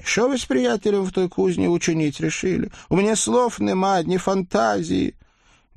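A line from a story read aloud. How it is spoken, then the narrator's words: Desperate pleading. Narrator (Russian): взмолилась Солоха, едва не падая на колени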